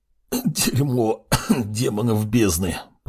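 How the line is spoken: Whisper, then coughing. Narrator (Russian): прошептал он и закашлялся

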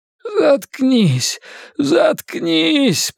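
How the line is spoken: Anguished groan. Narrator (Russian): простонал Генри

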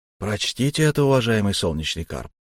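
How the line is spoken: Soft young man's request. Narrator (Russian): мягко попросил юноша

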